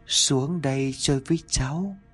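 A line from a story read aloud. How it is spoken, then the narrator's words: Soft smiling invitation. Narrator (Vietnamese): Nó khẽ mỉm cười nhìn bà rồi nói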